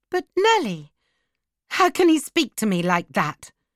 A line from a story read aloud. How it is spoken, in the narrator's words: she cried